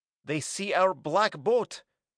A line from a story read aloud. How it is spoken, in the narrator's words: Sarja exclaimed